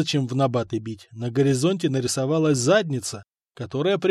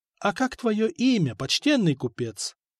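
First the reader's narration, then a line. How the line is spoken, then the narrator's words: Sweet-voiced asking. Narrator (Russian): Сладким голосом, от которого интуиция уже ни в какие набаты не била, спросил Франк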